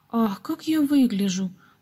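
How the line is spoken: Sudden exclamation. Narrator (Russian): вдруг воскликнула Гизела

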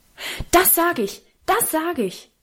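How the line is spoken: Loud shout. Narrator (German): rief Karl so laut

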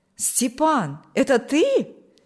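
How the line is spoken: Joyful exclamation. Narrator (Russian): воскликнул Николай обрадованно

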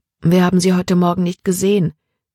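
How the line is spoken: Plain. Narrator (German): sagte Libby

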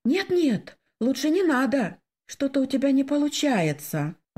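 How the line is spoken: Timid. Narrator (Russian): робко сказала я

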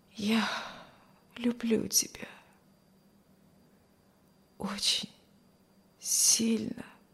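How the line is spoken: Barely audible murmur. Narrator (Russian): еле слышно проговорил Стивен

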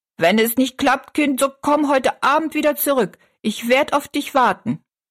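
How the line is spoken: Calling after someone. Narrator (German): rief sie noch hinterher

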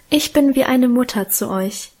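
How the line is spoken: Emotional sigh. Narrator (German): seufzte sie gefühlvoll

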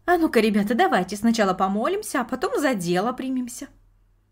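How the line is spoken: Cheerful suggestion. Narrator (Russian): бабушка весело предложила

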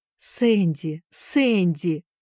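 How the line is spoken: Exclamation. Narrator (Russian): воскликнула, наконец, миссис Шафта

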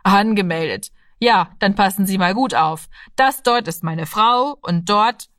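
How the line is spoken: Laughing. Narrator (German): lachte der Vater

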